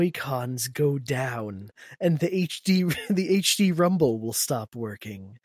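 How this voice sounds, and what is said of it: Usual voice. Nothing is said of it.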